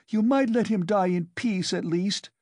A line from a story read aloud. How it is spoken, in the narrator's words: she shouted at the crowd